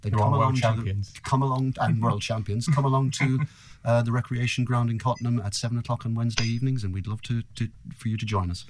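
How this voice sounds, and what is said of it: Irish accent. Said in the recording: “You can possibly tell from my accent that I'm cheering for the guys in green. ... The Irish.”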